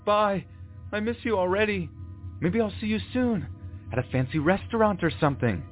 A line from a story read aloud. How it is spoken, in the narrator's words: the guy yells